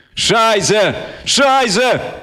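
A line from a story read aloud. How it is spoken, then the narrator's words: Yelled. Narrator (Russian): заорал я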